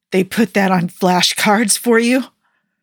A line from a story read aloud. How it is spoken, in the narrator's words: Tony asked with an abrasive, terrible-sounding laugh that didn't sound like anything was funny